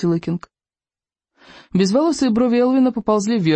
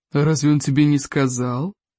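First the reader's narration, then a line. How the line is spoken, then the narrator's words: Purring. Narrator (Russian): промурлыкал Элвин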